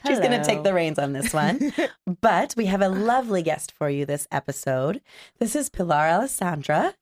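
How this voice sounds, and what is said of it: Rough, sick-sounding voice. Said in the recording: “I'm a bit sick, so my voice is a little rough”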